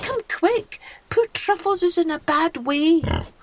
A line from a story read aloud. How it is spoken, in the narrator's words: cried Kirsty